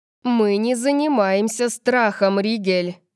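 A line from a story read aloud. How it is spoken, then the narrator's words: Growl. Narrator (Russian): прорычала она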